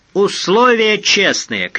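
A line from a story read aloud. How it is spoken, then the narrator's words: Shouted. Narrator (Russian): крикнул Фондорин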